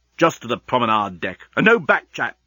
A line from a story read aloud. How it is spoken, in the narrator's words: snapped Leovenus